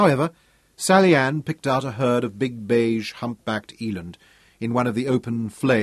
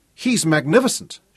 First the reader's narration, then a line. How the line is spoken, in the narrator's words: cried, the wind from the open window buffeting them and whipping her words away